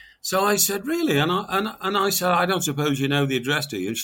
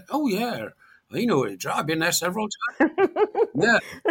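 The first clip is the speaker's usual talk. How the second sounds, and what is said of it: Put-on West Country accent. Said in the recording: “whips out his West Country accent for good measure”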